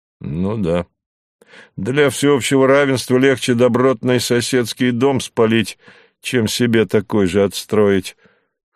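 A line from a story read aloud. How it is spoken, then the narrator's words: Sullen grumbling. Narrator (Russian): хмуро пробурчал Савва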